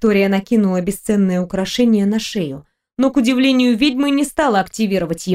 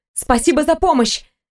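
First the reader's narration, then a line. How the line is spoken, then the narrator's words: Young woman interrupting. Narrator (Russian): не дала ей договорить девушка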